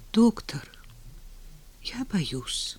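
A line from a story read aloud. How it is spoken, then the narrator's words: Old man's whisper. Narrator (Russian): шепнул старик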